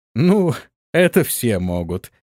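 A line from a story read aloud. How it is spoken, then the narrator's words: Laughing. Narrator (Russian): рассмеялся грек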